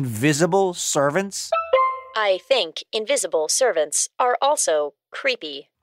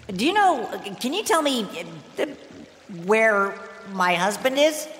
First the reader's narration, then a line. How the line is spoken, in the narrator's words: she asked nervously